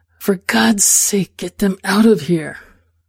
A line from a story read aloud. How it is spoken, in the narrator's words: With a sense of what's to come, I hiss into his ear